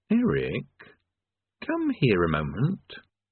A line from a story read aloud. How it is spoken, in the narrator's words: he said quietly